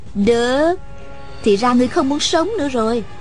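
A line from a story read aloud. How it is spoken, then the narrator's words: Smiling menace. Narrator (Vietnamese): Hà Thiết Thủ mỉm cười nói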